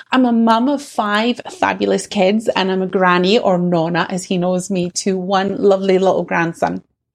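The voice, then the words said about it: Scottish accent. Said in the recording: “what you can probably tell from my accent is that I'm Scottish”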